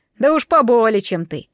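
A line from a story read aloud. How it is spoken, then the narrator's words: Bird-headed speaker snorting. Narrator (Russian): хмыкнул птицеголовый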